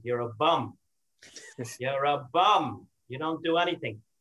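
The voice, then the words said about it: Put-on Brooklyn accent. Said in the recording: “in her best Brooklyn accent”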